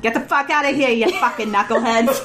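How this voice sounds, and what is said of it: Put-on Boston accent as Gandalf. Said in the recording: “everyone has a Boston accent ... Gandalf”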